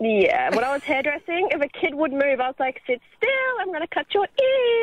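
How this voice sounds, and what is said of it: Usual voice. Nothing is said of it.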